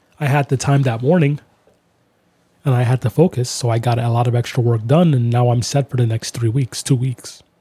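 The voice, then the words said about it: Tired, worn-out voice. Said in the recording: “My voice is getting tired.”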